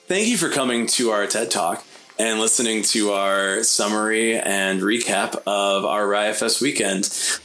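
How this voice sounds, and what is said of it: Announcer voice. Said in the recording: “I have this like announcer voice every time I have to like do an outro.”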